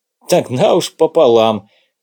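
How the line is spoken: Laughing. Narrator (Russian): засмеялся Владимир Иванович

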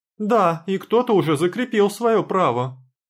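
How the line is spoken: Shrill shout. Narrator (Russian): визгливо крикнула Полина

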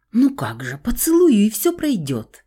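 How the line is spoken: Joyful reassurance. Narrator (Russian): радостно заверила я

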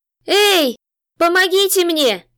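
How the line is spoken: Hoarse croak, parched throat. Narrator (Russian): хотела закричать она, но из пересохшего горла вырвалось лишь хриплое кряхтение

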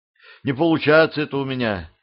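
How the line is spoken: Sighing. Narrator (Russian): вздохнула Юля

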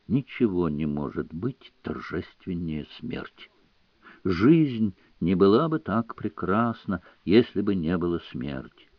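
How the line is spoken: Whispered. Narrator (Russian): он прошептал

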